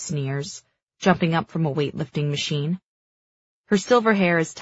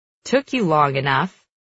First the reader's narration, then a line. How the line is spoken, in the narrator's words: Maven chuckles